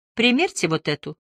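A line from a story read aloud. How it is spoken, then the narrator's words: Calm. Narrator (Russian): господин Агисон спокойно произнес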